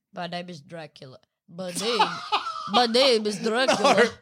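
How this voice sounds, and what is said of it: Dracula voice with stuffy nose. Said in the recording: “Is that what Dracula would sound like with a cold? ... my nose is stuffy ... when he gets a cold, he loses the accent.”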